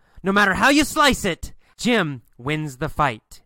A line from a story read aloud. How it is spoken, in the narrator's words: and yells